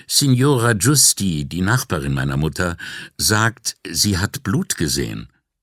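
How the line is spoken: Husky voice, throat-clearing. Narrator (German): räusperte sich und sagte mit belegter Stimme

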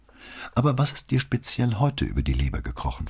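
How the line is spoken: Plain. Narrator (German): fragte sie

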